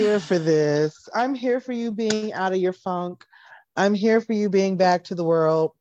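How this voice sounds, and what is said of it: Usual voice. Nothing is said of it.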